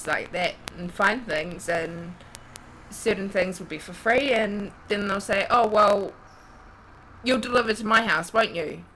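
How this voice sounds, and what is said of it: New Zealand accent. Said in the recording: “He obviously hasn't heard an Australian accent before... New Zealand?... New Zealand, yes.”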